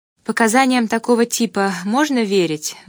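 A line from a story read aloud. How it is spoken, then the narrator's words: Sigh. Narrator (Russian): вздохнула я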